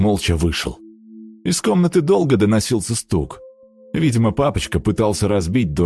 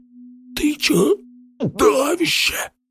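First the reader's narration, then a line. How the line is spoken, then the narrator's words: Hoarse wheeze. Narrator (Russian): прохрипел он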